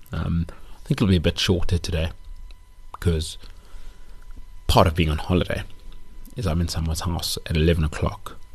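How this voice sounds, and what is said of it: Quiet, hushed radio-style voice. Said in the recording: “You can probably hear me doing my NPR voice, but there's children sleeping upstairs”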